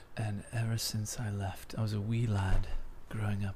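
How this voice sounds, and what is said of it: Put-on Irish accent. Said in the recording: “You're from Ireland now?”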